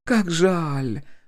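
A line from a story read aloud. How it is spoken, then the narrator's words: Sighing. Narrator (Russian): вздохнула Полина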